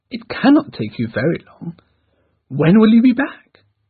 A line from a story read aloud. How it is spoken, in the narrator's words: Dashwood cheerfully